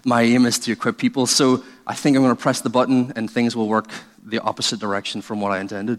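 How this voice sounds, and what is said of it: Irish accent. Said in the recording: “Hopefully you've heard through the accent that Irish people are not very intelligent.”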